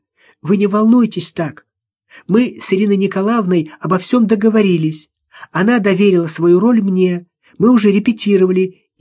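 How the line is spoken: Uncertain singsong. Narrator (Russian): неуверенно пропела

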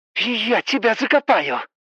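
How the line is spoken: More than a hiss. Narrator (Russian): Голос Ингер уже не просто шипел

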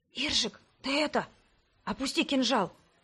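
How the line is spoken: Whisper in ear. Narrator (Russian): прошептал он мне в ухо

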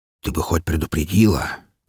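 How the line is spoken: Quiet reproach. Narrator (Russian): тихо попенял

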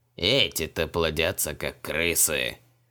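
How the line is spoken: Irritated, dismissive demonic priest. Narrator (Russian): Раздраженно отмахнулся демонический жрец

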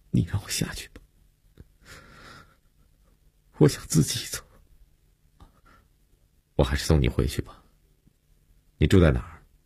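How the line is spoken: Choked, sobbing. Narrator (Chinese): 悠悠哽咽着说

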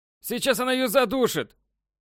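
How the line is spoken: Loud shout. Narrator (Russian): Громко выкрикнул Краузе

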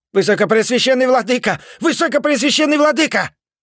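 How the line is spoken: Breathless yell. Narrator (Russian): заорал он, когда вбежал в главный зал собора

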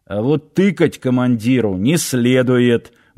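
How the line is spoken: Gruff mutter. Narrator (Russian): буркнул Сошин

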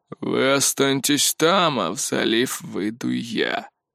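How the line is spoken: Old man, uncompromising declaration. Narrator (Russian): бескомпромиссным тоном заявил старик

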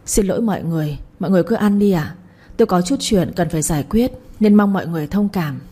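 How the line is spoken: Soft reply. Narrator (Vietnamese): khẽ đáp lại

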